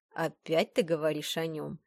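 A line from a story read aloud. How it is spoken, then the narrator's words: Grumbling. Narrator (Russian): проворчал ректор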